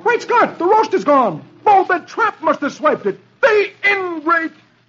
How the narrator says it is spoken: exclaims

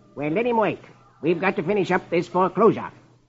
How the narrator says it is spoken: Marlowe snaps

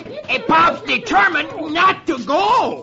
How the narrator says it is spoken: who's trying to hold down the other leg, shouts

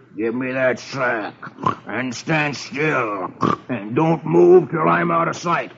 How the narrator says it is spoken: he growls

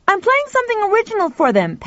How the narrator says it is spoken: Pal shouted back

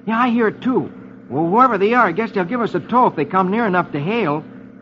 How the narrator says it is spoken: Rusty exclaims

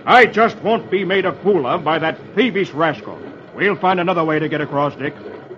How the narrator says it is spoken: Kemble thunders

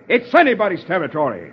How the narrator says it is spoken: Captain Lewis roars back

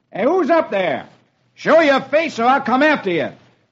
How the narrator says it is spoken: Roy shouts

